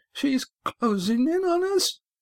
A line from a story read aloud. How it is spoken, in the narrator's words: he said, his voice rising